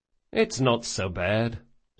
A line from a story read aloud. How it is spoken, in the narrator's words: said Locke, a bit wistfully